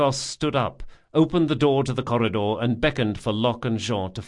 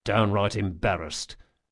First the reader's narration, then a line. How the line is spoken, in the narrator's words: muttered Locke